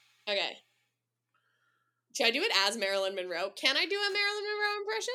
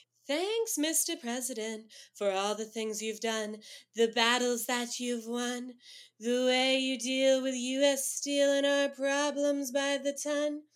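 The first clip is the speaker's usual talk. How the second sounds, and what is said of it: Sung imitation of another person's voice. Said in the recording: “Marilyn Monroe impression”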